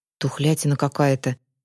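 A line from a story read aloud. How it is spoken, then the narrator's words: Muttered. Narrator (Russian): пробормотал Захар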